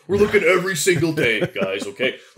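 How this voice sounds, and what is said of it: Imitates another person's voice. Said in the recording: “I'm doing my Dan Campbell voice here”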